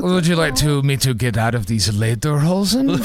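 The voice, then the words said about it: Poor put-on accent. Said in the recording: “My accent's not good.”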